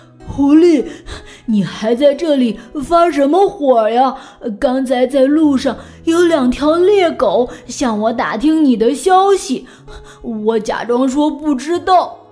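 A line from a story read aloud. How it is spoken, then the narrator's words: Breathless, panting. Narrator (Chinese): 乌龟终于爬到了终点，它气喘吁吁地说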